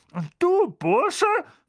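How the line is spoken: Hissed at someone. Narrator (German): fauchte er Harry an

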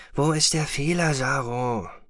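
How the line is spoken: Murmur. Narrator (German): murmelte er

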